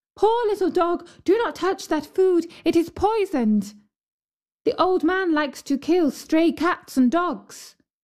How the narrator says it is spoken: the girl to whom he had given the bread ... cried

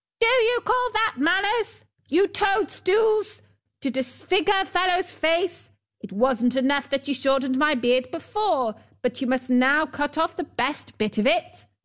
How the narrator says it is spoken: He yelled to them

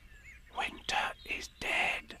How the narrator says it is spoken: whispered to her neighbor

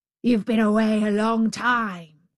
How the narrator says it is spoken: growled the savage beast

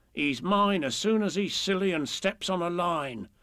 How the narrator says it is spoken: the little bears growl to each other

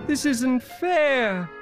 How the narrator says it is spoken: cried Till

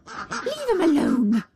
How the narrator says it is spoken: she said fiercely

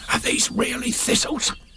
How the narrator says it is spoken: He whispered

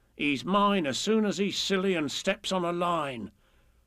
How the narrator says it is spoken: the little bears growl to each other

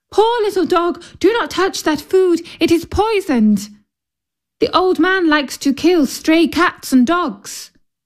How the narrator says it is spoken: the girl cried

